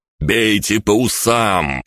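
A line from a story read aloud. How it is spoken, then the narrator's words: Shouted. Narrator (Russian): прокричал я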